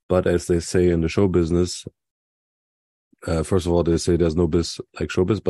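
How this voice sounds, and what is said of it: Sick-sounding voice. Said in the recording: “As you might hear from my voice and how I'm sounding, I'm a little sick. It feels like I've got some summer flu”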